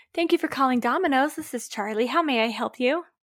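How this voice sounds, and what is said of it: Put-on customer service phone voice. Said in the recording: “Here's my phone voice.”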